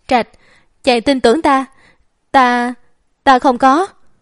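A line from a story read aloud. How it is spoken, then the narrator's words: Terrified trembling mutter. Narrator (Vietnamese): Tích Ngầm sợ tới mức run rẩy, không dám kêu gào, lẩm bẩm nói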